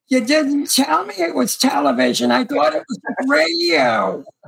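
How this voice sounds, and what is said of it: Impression of Fran. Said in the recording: “that's a good impression of her”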